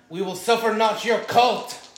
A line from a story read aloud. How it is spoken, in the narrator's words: By yelling